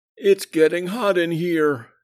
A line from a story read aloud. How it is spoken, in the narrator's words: he groaned as his temper kept rising